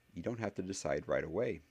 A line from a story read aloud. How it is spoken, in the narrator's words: Harry said in a more normal tone